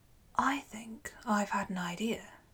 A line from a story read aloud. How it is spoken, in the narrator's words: Nisus said quietly to Euryalus